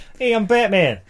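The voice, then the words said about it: Put-on Boston accent. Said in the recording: “Something about that Bostonian accent ... It's a wicked pisser.”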